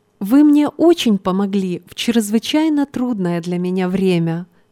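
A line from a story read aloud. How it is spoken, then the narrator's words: Plain. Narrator (Russian): сказала девушка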